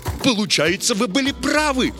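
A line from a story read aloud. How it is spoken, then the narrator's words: Delighted exclamation. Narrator (Russian): с восторгом воскликнул Чижевский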